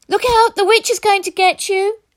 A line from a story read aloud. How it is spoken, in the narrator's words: children turned and ran screaming with a mix of excitement and fear